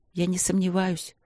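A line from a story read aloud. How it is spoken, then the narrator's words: Quiet. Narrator (Russian): тихо сказала она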